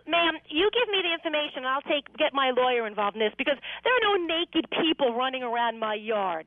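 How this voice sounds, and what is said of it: Raised, angry voice. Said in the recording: “there's no need to raise your voice ... She is raising her voice. She does tend to have a temper. ... You just got to calm down”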